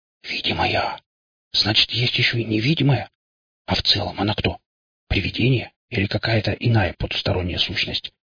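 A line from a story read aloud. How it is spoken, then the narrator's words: Whispered question. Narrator (Russian): шепотом спросил Андрей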